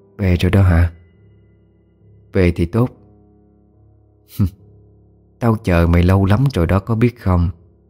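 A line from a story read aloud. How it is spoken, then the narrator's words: Nasal whisper, weary woman. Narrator (Vietnamese): mụ Hoa thì thầm bằng cái giọng mũi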